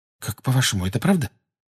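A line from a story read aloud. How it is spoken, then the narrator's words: Anxious whisper. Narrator (Russian): тревожно прошептала Гермиона Гарри и Рону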